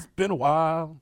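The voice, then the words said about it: Imitates a rock singer's voice. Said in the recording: “your limited impersonation of the lead singer”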